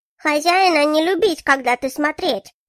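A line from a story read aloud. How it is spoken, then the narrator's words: Thin squeak. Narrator (Russian): Тоненьким голосом пропищал Эльгрен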